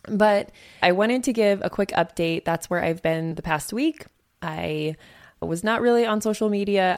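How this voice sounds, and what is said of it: Hoarse, fading voice. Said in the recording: “I'm also kind of losing my voice. I think most of us there were losing our voices from talking so much.”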